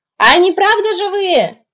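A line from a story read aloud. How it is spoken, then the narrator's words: Shouted after someone. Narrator (Russian): крикнул Питер, удаляющийся спине Алекса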